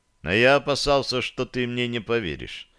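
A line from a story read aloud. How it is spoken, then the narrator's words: Answered quietly. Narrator (Russian): негромко ответил я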